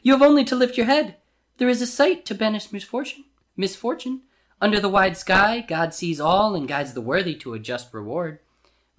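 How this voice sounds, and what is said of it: Weird character voice for beggar. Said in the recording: “That's not a very good voice. ... You have only weird voices. ... for this one I'm already in it.”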